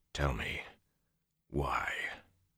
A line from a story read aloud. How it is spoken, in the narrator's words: His voice was quiet, numb